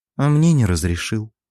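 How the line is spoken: Sighing. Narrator (Russian): вздохнула темная

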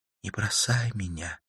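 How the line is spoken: Whisper. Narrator (Russian): прошептала Карла

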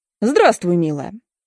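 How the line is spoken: Mocking. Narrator (Russian): говорят насмешливо

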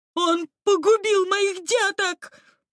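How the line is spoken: Sobbing. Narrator (Russian): прорыдала в ответ Бетти

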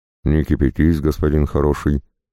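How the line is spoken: Calm. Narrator (Russian): ответил спокойно казак

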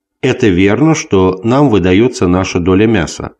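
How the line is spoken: Plain. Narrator (Russian): сказал он

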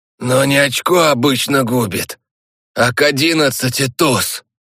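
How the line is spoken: Distant hoarse wheeze. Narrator (Russian): Просипел откуда-то Стас

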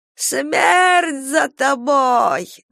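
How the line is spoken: Old woman shouting. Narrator (Russian): закричала старуха

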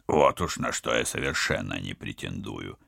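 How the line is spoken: Embarrassed grumble. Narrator (Russian): смущенно проворчал спецагент

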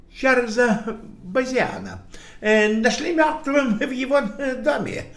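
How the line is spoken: Breathless. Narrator (Russian): выдохнул Лейстрид

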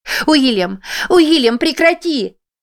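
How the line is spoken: Screaming. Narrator (Russian): закричала она

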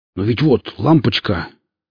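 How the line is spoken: Exclaiming with wounded pride. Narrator (Russian): воскликнул Велес, пытаясь спасти остатки жестоко пострадавшей гордости

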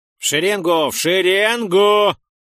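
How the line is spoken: Yelling monster. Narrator (Russian): заорал циклоп

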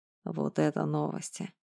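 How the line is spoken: Muttered. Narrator (Russian): пробормотал я

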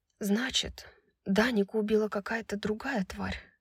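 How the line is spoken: Quiet. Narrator (Russian): тихо сказала Брайс

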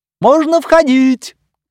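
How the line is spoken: Shout. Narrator (Russian): крикнул доктор Арнери

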